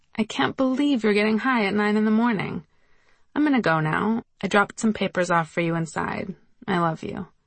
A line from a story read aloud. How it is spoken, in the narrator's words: laughed, and said